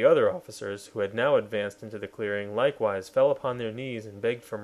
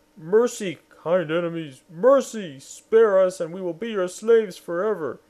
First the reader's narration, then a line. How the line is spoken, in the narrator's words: trembling and frightened, and cried out